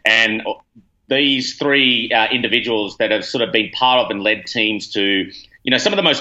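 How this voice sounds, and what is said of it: Australian accent. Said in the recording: “as you can tell from the accent, originally from Australia”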